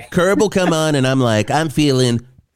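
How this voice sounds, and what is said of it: Imitates another person's voice. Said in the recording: “great Cheryl Hines impression”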